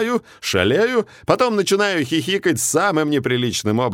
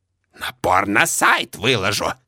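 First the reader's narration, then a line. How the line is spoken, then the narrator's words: Angry hiss. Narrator (Russian): Злобно шипит соседка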